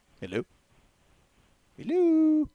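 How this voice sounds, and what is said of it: Mrs. Doubtfire impression. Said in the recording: “I just did my Mrs. Doubtfire impersonation.”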